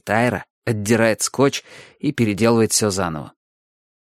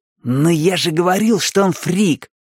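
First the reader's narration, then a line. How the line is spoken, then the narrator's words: Exclamation. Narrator (Russian): воскликнул Айра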